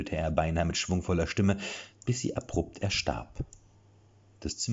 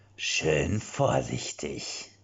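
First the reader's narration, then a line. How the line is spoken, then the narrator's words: Low male murmur. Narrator (German): raunte eine männliche Stimme hinter ihr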